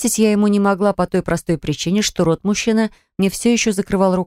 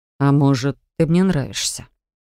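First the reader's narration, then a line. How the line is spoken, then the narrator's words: Calm exhale. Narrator (Russian): Я спокойно выдохнула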